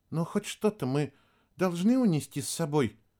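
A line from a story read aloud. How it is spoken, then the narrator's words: Timid young woman. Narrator (Russian): робко спросила девушка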